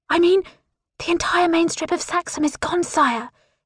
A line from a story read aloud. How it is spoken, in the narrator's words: he whispers